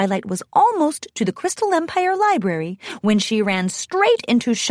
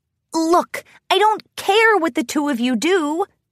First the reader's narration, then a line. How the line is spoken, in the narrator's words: Twilight snapped at Gilda and Trixie